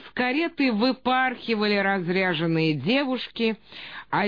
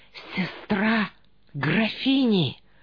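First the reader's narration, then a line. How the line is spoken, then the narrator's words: Whispers all around. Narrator (Russian): раздалось шепотом повсюду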